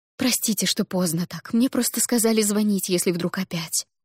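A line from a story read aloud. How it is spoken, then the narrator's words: Rapid chatter. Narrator (Russian): затараторила мама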